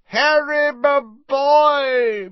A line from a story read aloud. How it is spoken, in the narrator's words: boomed Slughorn